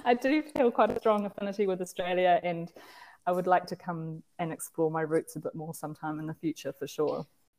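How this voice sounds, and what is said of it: Broad New Zealand accent. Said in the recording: “I have a broad Kiwi accent... Have a great Kiwi accent.”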